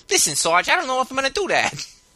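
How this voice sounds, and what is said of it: Thick cartoonish 1940s New York accent. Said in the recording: “a thick New York accent ... he's a cartoon gangster? ... that's how they sound in the World War II movies”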